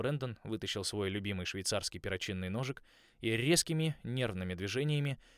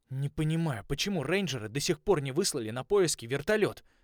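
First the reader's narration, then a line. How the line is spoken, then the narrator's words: Irritated. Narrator (Russian): раздраженно сказал я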